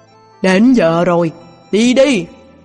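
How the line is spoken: Shout from behind. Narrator (Vietnamese): Ti Mệnh Tinh Quân từ đằng sau thét lên

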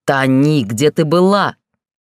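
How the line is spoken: Growling over voices. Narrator (Russian): Рычание перебило доносящиеся отовсюду голоса

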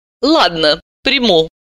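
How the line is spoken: Angry, grudging. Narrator (Russian): сердито сдалась она

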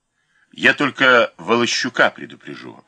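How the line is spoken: Plain. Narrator (Russian): ответил участковый

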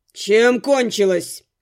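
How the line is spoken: Growling. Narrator (Russian): рыкнул Дорс

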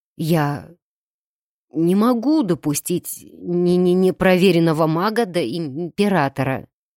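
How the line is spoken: Stammering but resolute. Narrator (Russian): пусть и заикаясь, но все же вполне решительно заявил он

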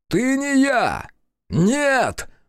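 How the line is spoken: Shouting again. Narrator (Russian): снова закричал

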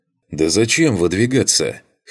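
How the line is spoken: Snort. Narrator (Russian): хмыкнул Джейс

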